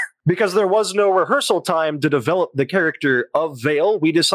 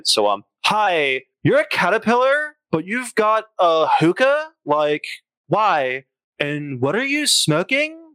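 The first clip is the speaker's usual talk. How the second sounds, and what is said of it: Valley Girl accent. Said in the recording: “he says this part in a Valley Girl accent.”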